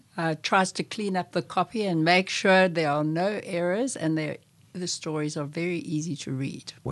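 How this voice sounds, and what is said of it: South African accent. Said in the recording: “Am I hearing a South African accent? ... Yes.”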